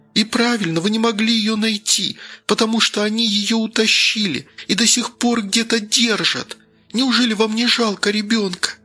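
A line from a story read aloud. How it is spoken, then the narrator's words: Trembling with sobs. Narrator (Russian): Голос Лары задрожал от рыданий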